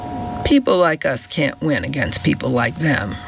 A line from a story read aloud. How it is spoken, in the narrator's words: Roger said bitterly